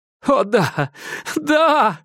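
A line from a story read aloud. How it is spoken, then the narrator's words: Exclaimed, then laughing. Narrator (Russian): вскричал я и рассмеялся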